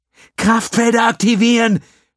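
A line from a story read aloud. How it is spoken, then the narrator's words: Shouting. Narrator (German): schrie sie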